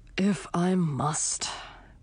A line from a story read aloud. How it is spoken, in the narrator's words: grumbled the knight